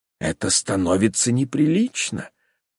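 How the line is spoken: Lady whispering. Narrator (Russian): шепнула одна дама

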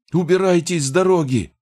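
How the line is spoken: Yelling. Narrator (Russian): завопил один из бойцов морга

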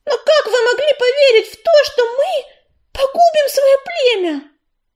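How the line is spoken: Indignant yell. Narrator (Russian): Возмущенно завопила Белочка

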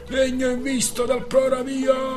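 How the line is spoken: Distant shout from above. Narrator (Italian): dalla coffa del trinchetto una voce gridò

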